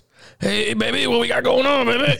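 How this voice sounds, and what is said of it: Gravelly DMX voice impression. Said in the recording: “you tried to do the DMX voice ... Like everybody did the DMX voice ... That was good, by the way ... That was really good”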